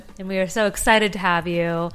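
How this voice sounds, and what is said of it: Flat, unenthusiastic sarcastic tone. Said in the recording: “Can you hear her excitement? ... My tone of voice really gives it away.”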